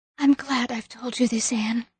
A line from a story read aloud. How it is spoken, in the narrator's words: she whispered